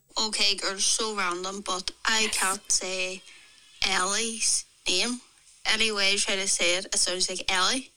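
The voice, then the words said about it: Northern Irish accent. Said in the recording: “I'm from Northern Ireland and that's just my accent”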